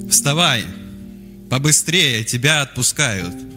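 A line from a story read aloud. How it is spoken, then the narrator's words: Very loud. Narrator (Russian): Так громко сказали, до звона в ушах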